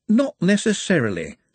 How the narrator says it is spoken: said a voice cheerfully

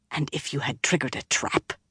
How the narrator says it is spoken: Nynaeve almost hissed the words

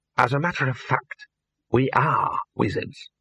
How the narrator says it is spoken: he hissed

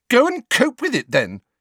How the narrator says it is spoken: Cho said furiously

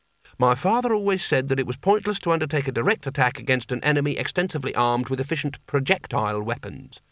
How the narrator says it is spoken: said

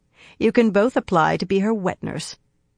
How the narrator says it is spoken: she said dryly

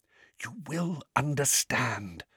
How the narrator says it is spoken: whispered Dumbledore

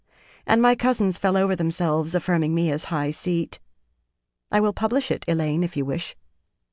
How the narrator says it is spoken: the young woman said calmly

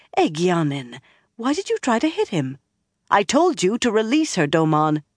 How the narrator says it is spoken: More warmly, worriedly, she added

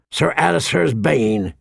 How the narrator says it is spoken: he grunted

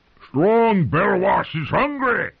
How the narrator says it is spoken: roared at everyone, and no one in particular

